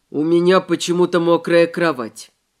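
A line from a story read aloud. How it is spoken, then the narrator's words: Perfectly calm explanation. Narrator (Russian): пояснил он совершенно спокойно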